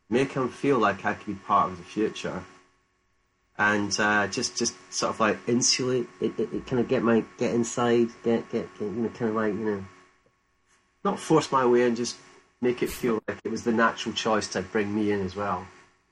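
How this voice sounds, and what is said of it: Glaswegian Scottish accent. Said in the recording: “a British accent ... Glaswegian”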